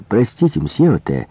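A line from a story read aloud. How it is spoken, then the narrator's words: Exclaiming. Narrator (Russian): воскликнул я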